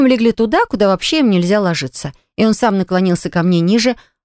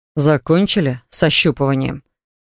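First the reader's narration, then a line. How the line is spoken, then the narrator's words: Mocking snort. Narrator (Russian): Хмыкнули надо мной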